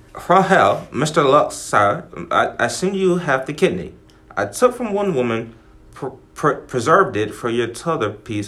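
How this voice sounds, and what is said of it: Put-on British accent sounding Irish. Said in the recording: “I need a British accent... You look very Irish... That's a Conor McGregor”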